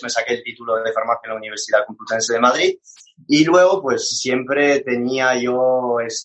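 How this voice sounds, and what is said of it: French accent speaking Spanish. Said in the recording (Spanish): “este acento no es de un barrio ahí chulo de Madrid, este acento es porque soy francés”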